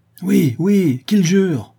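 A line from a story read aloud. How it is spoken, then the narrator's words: Group exclaiming. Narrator (French): s'écrient les autres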